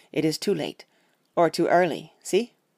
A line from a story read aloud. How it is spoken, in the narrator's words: he said sternly